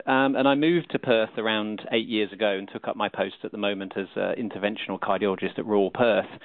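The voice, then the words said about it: British accent. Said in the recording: “I trained in the UK, you might be able to tell from my accent”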